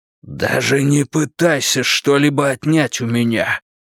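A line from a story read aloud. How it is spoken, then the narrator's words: Hoarse rasp. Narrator (Russian): прохрипел он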